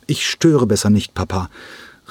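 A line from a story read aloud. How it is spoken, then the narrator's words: Calling while leaving. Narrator (German): rief er diesem im Weggehen zu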